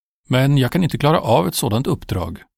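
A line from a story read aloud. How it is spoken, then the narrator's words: Exclaiming. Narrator (Swedish): utbrast Mose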